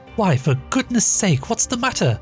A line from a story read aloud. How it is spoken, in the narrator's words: cried Maria